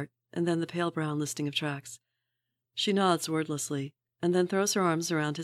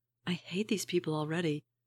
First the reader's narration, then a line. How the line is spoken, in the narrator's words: she whispers